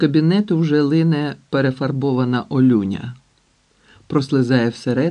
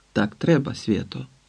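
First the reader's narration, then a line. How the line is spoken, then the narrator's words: Muttered under breath. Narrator (Ukrainian): бурмотить під ніс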